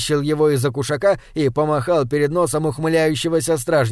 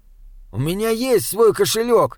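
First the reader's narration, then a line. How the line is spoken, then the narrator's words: Indignant. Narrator (Russian): сказал Саймон возмущенно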